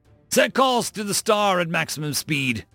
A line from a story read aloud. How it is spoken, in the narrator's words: Rykov barked